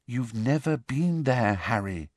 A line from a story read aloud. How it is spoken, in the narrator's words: said Hermione quietly